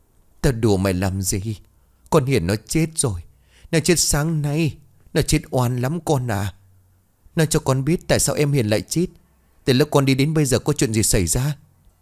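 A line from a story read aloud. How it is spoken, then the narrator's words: Sighing, telling. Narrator (Vietnamese): Bà Nhung thở dài bắt đầu kể lại mọi chuyện cho Lũ nghe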